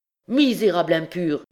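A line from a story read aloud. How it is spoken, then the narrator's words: Priest exclaiming. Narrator (French): s'écria le prêtre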